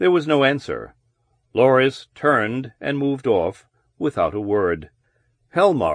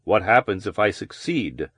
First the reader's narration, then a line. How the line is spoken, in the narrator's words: Parsons asked